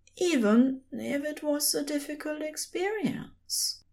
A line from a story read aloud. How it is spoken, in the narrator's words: he said softly